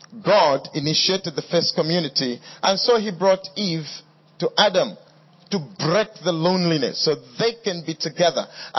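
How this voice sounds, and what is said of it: Speaks with a noticeable accent. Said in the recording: “is my accent getting in the way?”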